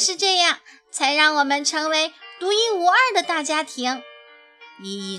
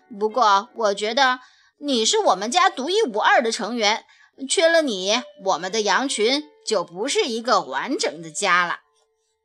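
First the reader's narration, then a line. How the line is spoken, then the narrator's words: Mumbling. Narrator (Chinese): 她嘟囔着说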